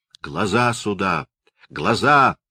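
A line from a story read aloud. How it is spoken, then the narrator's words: Muffled, menacing exclamation. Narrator (Russian): воскликнул Коппелиус глухим и грозным голосом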